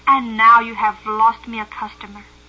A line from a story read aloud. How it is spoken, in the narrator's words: said crossly